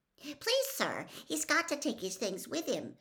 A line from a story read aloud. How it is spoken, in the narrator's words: squeaked Colin